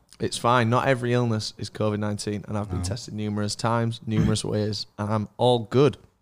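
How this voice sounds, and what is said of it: Ill, voice mostly gone. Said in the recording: “I'm ill ... You might hear me cough a couple of times. I've got strepsil in my mouth. My voice has gone.”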